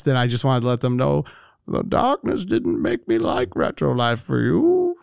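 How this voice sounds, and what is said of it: Poor Bane villain voice impression. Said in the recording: “my Bane imitation. ... You're terrible, Bane. ... I need to cover my mouth a little bit when I do it.”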